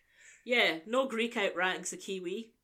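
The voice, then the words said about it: Put-on New Zealand accent. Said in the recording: “That's my best Kiwi accent.”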